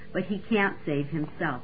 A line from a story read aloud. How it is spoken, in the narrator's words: they scoffed